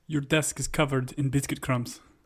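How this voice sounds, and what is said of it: Put-on character accent, fairly good. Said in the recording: “do a Zava accent ... unrehearsed accent ... that's pretty good, man ... That was pretty great”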